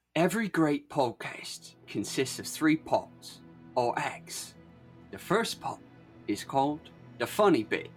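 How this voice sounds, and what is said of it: Michael Caine impression. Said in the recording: “Are you going to do the accent? ... Michael Caine. I'm warming up the pipes.”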